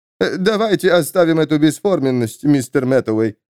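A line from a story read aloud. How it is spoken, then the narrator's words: Pleading. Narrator (Russian): взмолился Глеску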